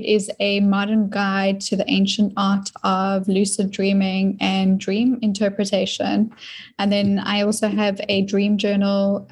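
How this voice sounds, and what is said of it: South African accent. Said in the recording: “I noticed your accent right away ... you're in Florida, but you're originally from South Africa.”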